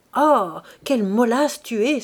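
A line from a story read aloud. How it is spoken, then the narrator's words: Angry exclamation. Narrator (French): s'écria Félicité avec colère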